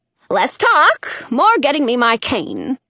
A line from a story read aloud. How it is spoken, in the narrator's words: Dottie snaps